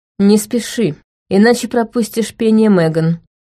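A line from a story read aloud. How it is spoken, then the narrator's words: Calmer tone. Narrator (Russian): добавил Шин уже более спокойным тоном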